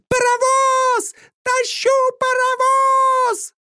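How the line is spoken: Fairy's shout. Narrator (Russian): крикнула подлетевшая на форсаже фейка

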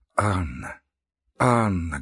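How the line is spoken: Trembling voice. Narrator (Russian): говорил он дрожащим голосом

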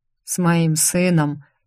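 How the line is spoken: Heavy sigh. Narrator (Russian): тяжело вздохнул он

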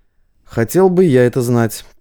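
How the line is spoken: Grumbling. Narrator (Russian): проворчал Василий

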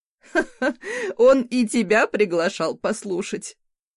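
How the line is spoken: Hearty laugh. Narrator (Russian): От души рассмеялась Магали

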